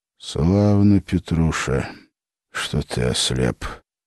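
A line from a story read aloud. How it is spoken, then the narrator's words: Quiet. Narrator (Russian): тихо сказал Колычев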